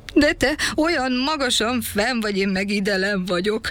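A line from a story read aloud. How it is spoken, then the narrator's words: Sad, tearful. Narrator (Hungarian): mondta a tejberis bánatosan, és sírva fakadt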